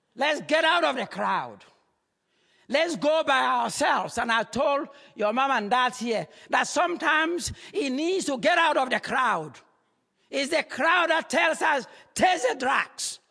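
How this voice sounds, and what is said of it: Speaks with a noticeable accent. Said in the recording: “You get my accent a little bit, don't you?”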